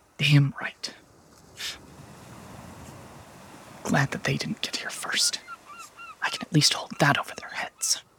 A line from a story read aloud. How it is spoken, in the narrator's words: whispers